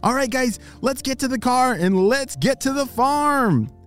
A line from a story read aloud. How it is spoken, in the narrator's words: he shouted